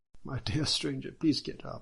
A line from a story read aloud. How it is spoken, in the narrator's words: Judge Bao exclaimed